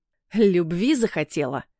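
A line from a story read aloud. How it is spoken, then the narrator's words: Growl through clenched teeth. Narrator (Russian): прорычал, стиснув зубы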